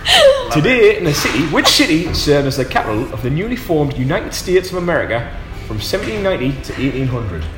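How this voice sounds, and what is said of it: Put-on accent reading a question. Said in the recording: “I'll say it in a normal voice. ... I was too concentrating on your accent there. ... spot on accent”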